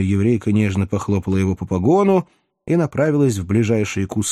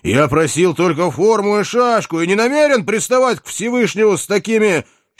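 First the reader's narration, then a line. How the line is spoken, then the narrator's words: Confused, then menacing roar. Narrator (Russian): окончательно запутался Иван и, неожиданно догадавшись, грозно взревел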